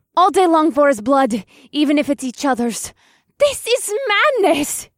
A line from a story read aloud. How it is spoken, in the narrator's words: Beatrix shrieked